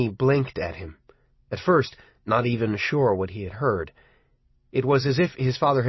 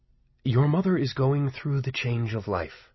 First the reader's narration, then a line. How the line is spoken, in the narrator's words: Michael said quietly